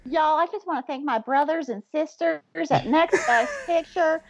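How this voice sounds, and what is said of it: Put-on Southern accent. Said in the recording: “I have this southern accent that I've decided to discover”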